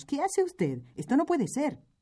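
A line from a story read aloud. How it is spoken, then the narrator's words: Group exclaiming. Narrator (Spanish): exclamamos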